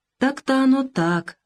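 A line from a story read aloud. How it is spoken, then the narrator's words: Sighing. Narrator (Russian): вздохнул он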